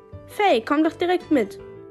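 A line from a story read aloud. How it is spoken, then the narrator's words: Calling out. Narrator (German): rief dazu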